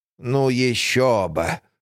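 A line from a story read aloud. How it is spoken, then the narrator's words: Scoffing snort. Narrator (Russian): хмыкнула мисс Джейн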